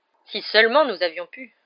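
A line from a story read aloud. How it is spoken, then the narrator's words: Bitter sigh. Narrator (French): soupira Fudge avec amertume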